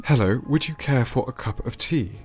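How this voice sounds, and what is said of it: Posh BBC English accent. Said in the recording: “very posh ... also the accent ... BBC English ... BBC accent”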